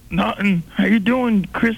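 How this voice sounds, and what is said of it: Bad, throaty imitation of another person. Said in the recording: “You have a really, really bad Bob Goldthwait impression you got going there. Well, you should probably clear your throat.”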